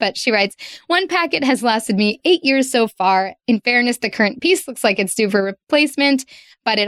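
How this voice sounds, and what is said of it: Usual voice. Nothing is said of it.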